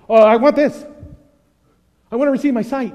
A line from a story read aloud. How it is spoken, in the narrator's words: he sort of blurted it out